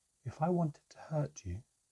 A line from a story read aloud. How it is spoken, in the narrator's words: the elf said sadly